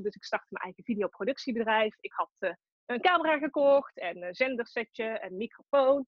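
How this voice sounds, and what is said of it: Tilburg Brabant Dutch accent. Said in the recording (Dutch): “Ik kom uit Tilburg, dat hoor je misschien ook wel.”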